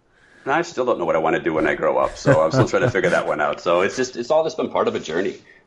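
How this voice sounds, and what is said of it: Chicago Midwest American accent. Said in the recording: “you're from the East Coast of the U.S. ... Chicago? ... I thought I could place the accent.”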